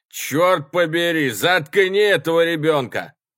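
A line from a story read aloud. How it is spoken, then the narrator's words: Shouting, less loudly. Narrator (Russian): Младший тоже закричал, но не так громко, как старший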